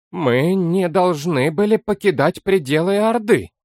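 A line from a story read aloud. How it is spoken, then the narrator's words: Dull, hollow voice. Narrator (Russian): глухо произнес принц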